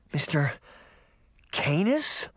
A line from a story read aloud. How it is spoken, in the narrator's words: Sabrina stammered